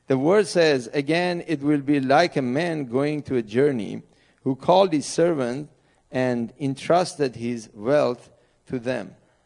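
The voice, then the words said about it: Middle Eastern English accent. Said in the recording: “Sorry, my accent. You may not get the complete words, but this is the English from Middle East”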